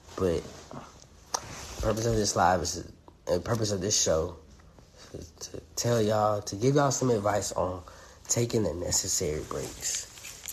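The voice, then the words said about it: Hoarse, strained voice. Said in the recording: “kind of losing my voice a little bit. It's because I got mucus in my chest.”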